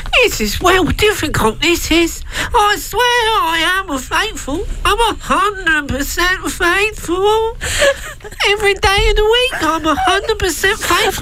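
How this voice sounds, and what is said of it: High-pitched, sad, congested Cockney accent. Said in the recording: “The Cockney accent, 1800, high-pitched voice, sadness in your voice, has a cold”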